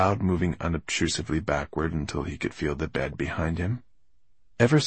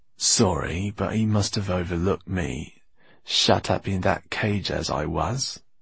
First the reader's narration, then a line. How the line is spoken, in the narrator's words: purred Basta in his cat-like voice